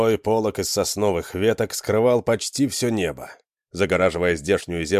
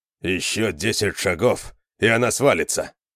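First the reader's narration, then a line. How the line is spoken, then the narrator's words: Grumbling. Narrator (Russian): проворчал Конан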